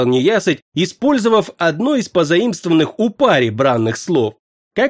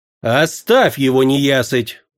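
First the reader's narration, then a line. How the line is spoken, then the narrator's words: Tired. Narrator (Russian): устало сказал темный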